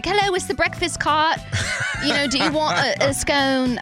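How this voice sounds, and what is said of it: Put-on British accent. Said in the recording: “I don't know why I said that in a British accent. ... your British accent was on point today”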